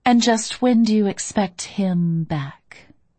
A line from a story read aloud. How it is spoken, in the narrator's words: I said sweetly